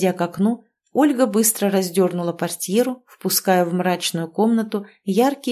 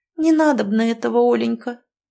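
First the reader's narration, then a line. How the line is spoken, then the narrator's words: Doomed, resigned voice. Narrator (Russian): каким-то обреченным голосом вымолвила Ирина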